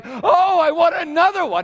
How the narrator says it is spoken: she cried

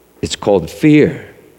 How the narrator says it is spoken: said the unman

